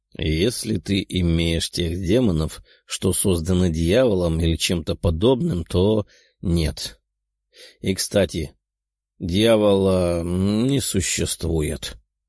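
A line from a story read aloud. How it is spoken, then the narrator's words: Lazy. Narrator (Russian): лениво ответил Тео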